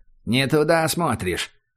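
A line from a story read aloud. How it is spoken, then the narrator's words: Cold prompt from below. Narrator (Russian): холодно подсказали снизу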